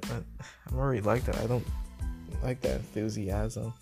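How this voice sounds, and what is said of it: Flat monotone voice. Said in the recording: “I'll be in this monotone voice”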